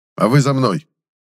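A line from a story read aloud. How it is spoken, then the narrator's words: Barked order. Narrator (Russian): рявкнул Форбрихер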